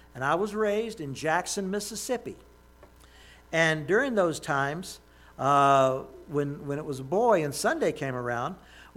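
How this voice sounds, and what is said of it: Southern American accent. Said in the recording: “you might have told from the way I'm talking that I have a southern accent.”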